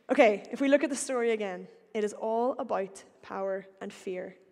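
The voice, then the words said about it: Northern Irish accent. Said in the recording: “my accent ... like any good Northern Irish person”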